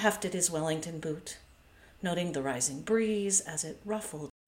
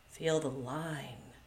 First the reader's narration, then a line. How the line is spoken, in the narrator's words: muttered